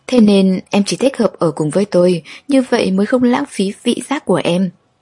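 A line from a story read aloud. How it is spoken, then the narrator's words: Laughing, teasing. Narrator (Vietnamese): Lục Bắc Thần anh bật cười, nói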